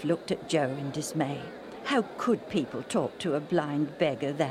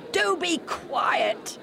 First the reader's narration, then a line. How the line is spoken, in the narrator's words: they shouted